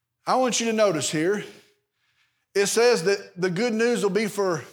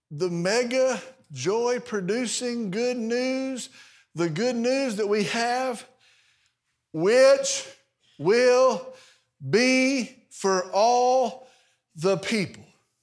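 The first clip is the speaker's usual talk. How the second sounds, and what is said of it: Slow, deliberate reading. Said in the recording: “I'm going to read that slowly.”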